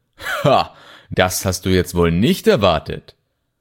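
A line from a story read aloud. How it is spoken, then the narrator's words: Gloating laugh. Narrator (German): Sein Lachen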